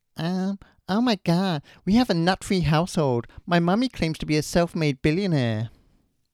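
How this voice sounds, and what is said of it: Imitates a young girl's accent. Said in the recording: “I'm going to say a famous quote from this person... In their voice... the voice may give it away straight away... that's bang on the accent.”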